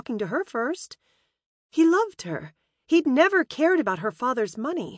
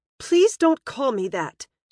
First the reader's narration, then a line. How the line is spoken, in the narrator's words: she snapped, for the first time not liking the implication of his childhood nickname for her